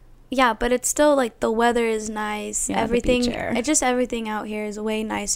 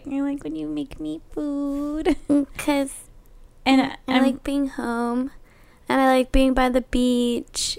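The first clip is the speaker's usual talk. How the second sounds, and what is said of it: Childlike, baby-like voice. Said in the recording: “she sounds like a baby still a little bit.”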